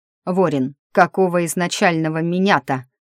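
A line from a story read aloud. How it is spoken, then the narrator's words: Indignant growl. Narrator (Russian): возмущенно прорычал этот полузамороженный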